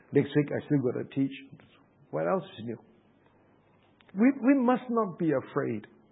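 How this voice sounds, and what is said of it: Hoarse, strained voice. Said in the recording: “my voice is quite bad right now ... throat is quite bad again”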